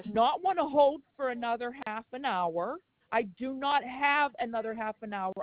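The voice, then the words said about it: Strong, raised, upset voice. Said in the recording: “My voice is strong because I'm tired of being played a fool”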